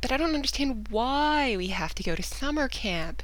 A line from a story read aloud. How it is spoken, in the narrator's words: David whined